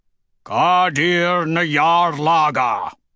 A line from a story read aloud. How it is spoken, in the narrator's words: Ragnar bellows